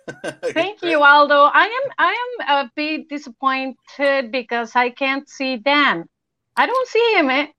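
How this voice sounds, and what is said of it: Spanish-sounding accent in English. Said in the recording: “You still sound like Penelope Cruz to me... I love your accent.”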